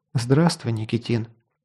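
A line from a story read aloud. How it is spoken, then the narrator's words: Quiet. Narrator (Russian): тихо сказала колдунья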